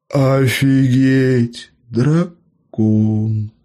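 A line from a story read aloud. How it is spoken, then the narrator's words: Three breathless in unison. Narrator (Russian): Слитно выдохнули трое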